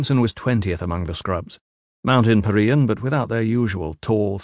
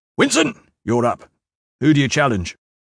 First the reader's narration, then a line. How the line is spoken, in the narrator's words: barked